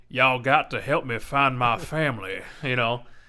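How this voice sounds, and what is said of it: Put-on Southern drawl. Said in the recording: “a Southern drawl ... a treacherous Colonel Sanders”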